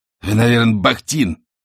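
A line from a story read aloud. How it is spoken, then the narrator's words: Angry question. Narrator (Russian): Коркин зло сплюнул и спросил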